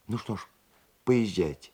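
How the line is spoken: Tearful reply. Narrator (Russian): сквозь слезы ответила Варвара

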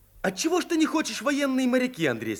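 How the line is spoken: Angry question. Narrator (Russian): сердито спросил Виктор

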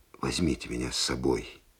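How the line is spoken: Whisper. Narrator (Russian): шептал

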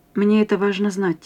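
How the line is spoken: Quiet speech. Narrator (Russian): тихо сказал

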